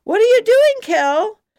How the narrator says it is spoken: noisy-ass Melody ... to scream

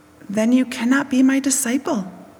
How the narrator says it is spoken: said Jesus

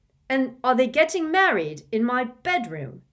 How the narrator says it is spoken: asked Ron furiously

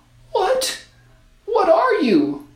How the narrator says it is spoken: the girl asked, shakily

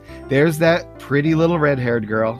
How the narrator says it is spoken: sighs

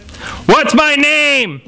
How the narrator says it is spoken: shouted

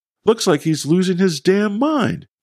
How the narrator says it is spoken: Danny exclaimed

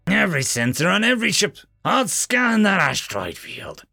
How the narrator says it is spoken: she growled

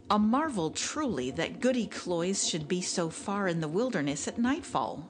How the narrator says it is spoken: said he

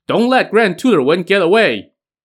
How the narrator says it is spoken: a host of enemy forces shouting

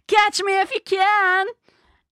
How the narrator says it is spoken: you stand up and yell

